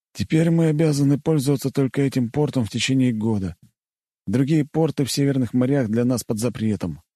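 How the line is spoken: Sighing. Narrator (Russian): вздохнул он

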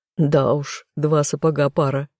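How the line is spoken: Chuckling. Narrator (Russian): хохотнул Тессон

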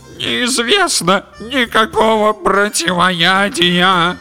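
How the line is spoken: Groaning. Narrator (Russian): простонала лодка

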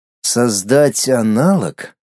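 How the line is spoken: Thoughtful drawl, in thought. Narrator (Russian): задумчиво протянул мысленно

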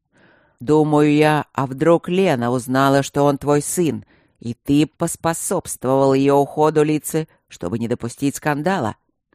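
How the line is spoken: Harsh roar. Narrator (Russian): Очень жестко проревел Гюнтер

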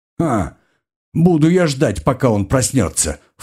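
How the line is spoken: Scornful snort. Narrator (Russian): фыркнул маг

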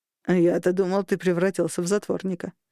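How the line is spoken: Scoffing hum. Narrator (Russian): хмыкнул Шторм

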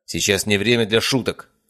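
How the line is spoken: Barking. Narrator (Russian): рявкнул Мельников

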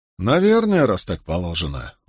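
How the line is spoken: Sighing. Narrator (Russian): вздохнул коронер

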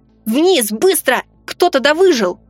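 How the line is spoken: Yelled. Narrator (Russian): заорал я

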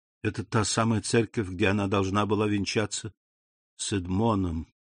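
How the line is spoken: Whisper. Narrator (Russian): прошептал аббат

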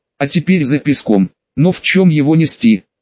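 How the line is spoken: Plain question. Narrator (Russian): спросил кто-то

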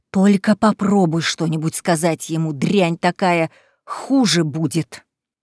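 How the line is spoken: Hissed. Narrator (Russian): прошипела

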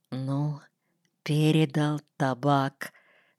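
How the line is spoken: Whisper. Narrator (Russian): шепнул мне Паша

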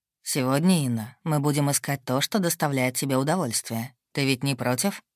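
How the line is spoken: Said quietly. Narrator (Russian): Мак негромко произнес

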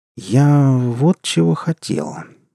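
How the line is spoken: Slow speech. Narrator (Russian): медленно сказал Вадим

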